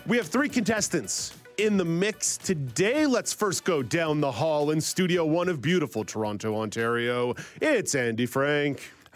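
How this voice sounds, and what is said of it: Put-on game show announcer voice. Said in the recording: “Putting on my Harry Carey announcer voice”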